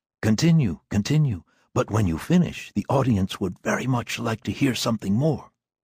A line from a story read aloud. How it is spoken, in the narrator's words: whisper very tactfully